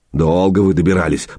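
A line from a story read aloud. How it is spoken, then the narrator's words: Grumbling. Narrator (Russian): проворчал Илья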